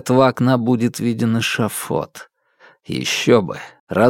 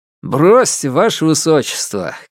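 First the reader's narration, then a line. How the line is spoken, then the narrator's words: Cheerful shout. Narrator (Russian): крикнул он весело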